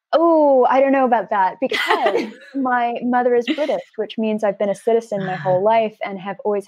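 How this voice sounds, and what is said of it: Flat Los Angeles American accent. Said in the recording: “you can tell from my accent, I was born and raised in Los Angeles, so I'm quite a flat accent, ... I'm definitely not from the UK.”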